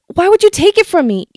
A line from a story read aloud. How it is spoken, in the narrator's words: I yell back